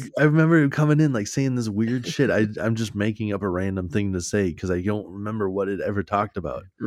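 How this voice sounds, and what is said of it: Usual voice. Nothing is said of it.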